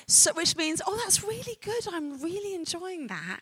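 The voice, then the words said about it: London English accent. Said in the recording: “Are you tracking my accent? ... So I'm a Londoner”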